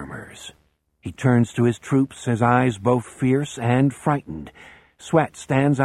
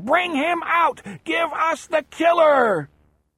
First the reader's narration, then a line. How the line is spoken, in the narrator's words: they are screaming